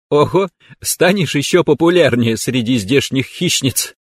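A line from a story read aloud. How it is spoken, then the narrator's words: Giggling. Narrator (Russian): хихикнула спарринг-партнер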